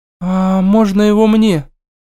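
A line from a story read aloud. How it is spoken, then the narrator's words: Slightly trembling request. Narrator (Russian): Чуть подрагивающим голосом попросила она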